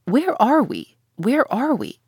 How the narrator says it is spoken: exclaimed the Canadian

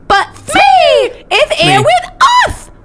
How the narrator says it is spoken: I cried

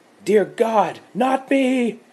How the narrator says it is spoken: She screamed

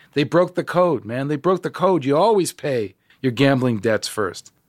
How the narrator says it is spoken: He was yelling to me

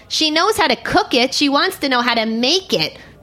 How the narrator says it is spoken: the lady barked at him

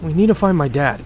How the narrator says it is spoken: blurts out

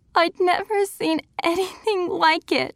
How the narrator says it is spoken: she sobbed

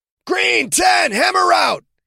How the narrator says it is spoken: He shouted down the far left side of the line

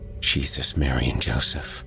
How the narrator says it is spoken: his brother whispered

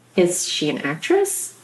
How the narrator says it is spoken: My voice came out cracked, soft

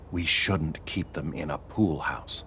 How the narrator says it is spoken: whispering

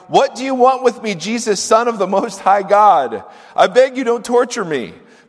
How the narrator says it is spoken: he cried out, shouting

